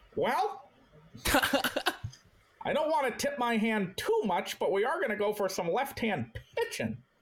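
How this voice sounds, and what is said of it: Old-fashioned stockbroker-like impersonated voice. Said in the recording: “I was doing my Dave Dombrowski impression ... That's like a 1950s stockbroker. ... Like a looney tune.”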